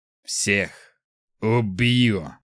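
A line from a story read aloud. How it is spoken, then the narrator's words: Hissed. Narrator (Russian): он прошипел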